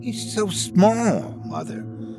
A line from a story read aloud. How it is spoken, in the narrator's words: hissed the one to my right, the female of the litter